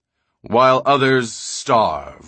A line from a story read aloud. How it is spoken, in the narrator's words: roared Fran suddenly